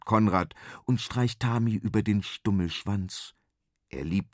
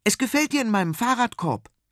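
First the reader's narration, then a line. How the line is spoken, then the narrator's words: Excited call. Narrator (German): ruft Konrad begeistert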